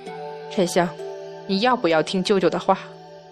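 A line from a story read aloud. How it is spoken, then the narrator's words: Sighing. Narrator (Chinese): 杨戬已然叹息道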